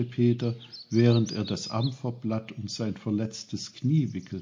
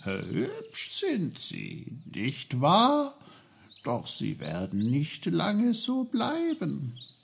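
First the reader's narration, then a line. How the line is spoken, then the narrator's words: Cheerful. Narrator (German): schüttelte fröhlich ihre goldenen Blätter und sagte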